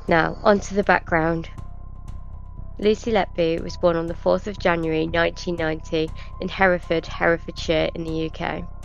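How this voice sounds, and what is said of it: Congested, slightly labored breathing voice. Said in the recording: “I have a cold. So if I sound like I'm hard of breathing”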